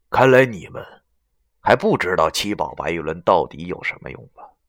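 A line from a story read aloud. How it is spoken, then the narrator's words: Cold voice. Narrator (Chinese): 袁梅 冷声说道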